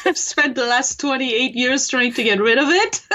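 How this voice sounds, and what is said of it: French accent. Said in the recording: “you can tell I have an accent... people will still hear the accent... I come from France originally.”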